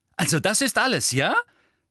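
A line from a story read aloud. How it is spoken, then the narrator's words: Said loudly. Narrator (German): sagte er laut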